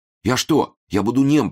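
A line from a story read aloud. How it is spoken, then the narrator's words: Timid babble. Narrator (Russian): пролепетал он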